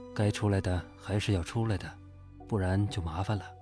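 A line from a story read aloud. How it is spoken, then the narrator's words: Calm, detached. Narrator (Chinese): 算命先生淡淡的说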